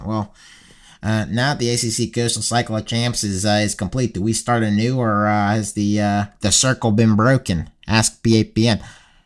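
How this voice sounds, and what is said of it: Put-on accent, grating. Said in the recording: “you gotta read this question in the accent... We do have to do this in the accent... I slip into that just now... that is grating”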